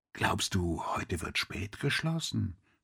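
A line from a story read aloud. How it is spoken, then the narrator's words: Quiet question. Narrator (German): fragte Chabot leise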